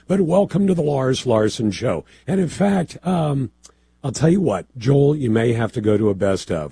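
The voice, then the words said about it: Hoarse, quieter voice. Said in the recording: “I sound like garbage today ... I got a little hoarse yesterday ... I'm just hoarse ... you're going to get me at a slightly lower volume than you do normally”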